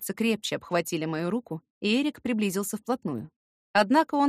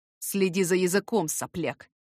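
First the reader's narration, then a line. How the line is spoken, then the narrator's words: Hissed through smiling teeth. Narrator (Russian): прошипел сквозь зубы, не убирая с лица улыбку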